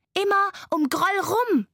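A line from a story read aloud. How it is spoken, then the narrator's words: Called out. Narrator (German): rief Laila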